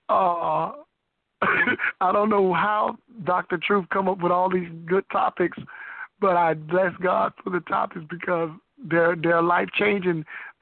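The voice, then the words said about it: Hoarse voice. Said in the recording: “I'm hoarse. I'm suffering with tonsillitis”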